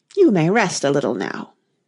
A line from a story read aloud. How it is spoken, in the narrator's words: said kindly